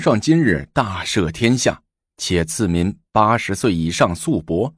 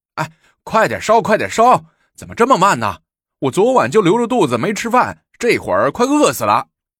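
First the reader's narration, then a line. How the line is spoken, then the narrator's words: Impatient clamoring, bowl-banging. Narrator (Chinese): 性急的和捣蛋的早已用筷子敲着碗边叫嚷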